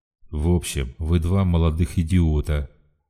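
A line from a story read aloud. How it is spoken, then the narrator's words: Even voice. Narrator (Russian): заговорил он ровным голосом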